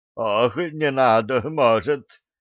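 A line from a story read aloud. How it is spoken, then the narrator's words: Moaned. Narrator (Russian): застонал Милован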